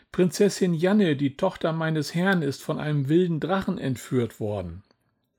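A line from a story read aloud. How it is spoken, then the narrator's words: Excited shouting. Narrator (German): schrie Bert aufgeregt herum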